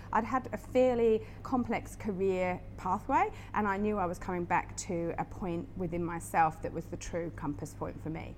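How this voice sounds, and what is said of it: British accent. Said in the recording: “your I'm not from around here accent gives it away that you were from the Northern Hemisphere ... from the UK”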